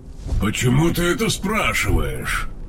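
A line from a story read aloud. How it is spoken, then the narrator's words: Grumbling. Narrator (Russian): проворчал Тейрн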